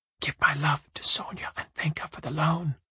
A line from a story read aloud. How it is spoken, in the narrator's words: whispers